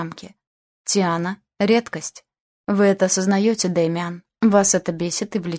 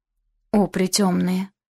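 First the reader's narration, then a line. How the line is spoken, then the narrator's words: Breathed out. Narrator (Russian): выдохнул Аш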